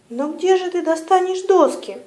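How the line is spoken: Exclaiming. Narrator (Russian): воскликнул ворон

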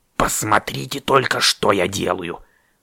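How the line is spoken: Grumbling raven. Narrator (Russian): бурчал ворон

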